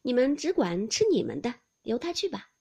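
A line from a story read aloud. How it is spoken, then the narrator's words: Laughing. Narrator (Chinese): 王夫人向宝钗等笑道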